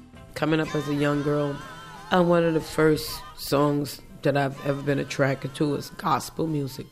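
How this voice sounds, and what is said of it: Slightly congested voice. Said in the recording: “my voice sounds a little weird ... I'm just a little congested.”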